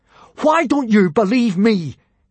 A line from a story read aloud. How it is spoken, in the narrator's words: asked furiously